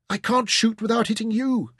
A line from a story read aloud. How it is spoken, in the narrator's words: cried